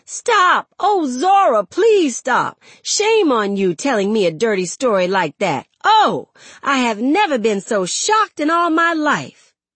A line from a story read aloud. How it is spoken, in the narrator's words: with his face half made up, screaming